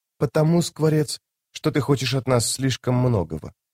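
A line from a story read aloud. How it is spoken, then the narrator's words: Whispered reply. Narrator (Russian): прошептав в ответ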